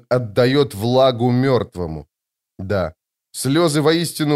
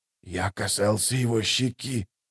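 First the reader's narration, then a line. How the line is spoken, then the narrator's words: Whisper. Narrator (Russian): прошептал кто-то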